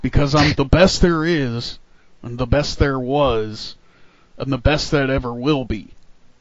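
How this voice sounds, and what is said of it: Imitates another person's voice. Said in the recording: “my bad Bret Hart impression.”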